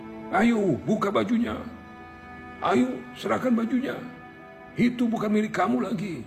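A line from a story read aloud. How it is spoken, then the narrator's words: Angry crowd shouting together. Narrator (Indonesian): Orang-orang yang sedari tadi berkerumun dan geram dengan kelakuan si lelaki sombong rami-rami berteriak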